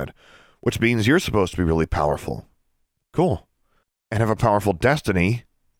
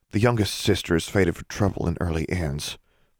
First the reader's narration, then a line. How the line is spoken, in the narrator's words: Forbearance said, much more quietly